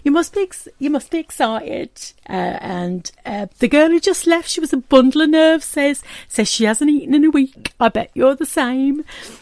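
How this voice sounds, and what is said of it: Attempted southeast English accent. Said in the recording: “I'm going to try and do the accent a little bit... forgive me for those who are from the southeast of England who think my accent is rubbish”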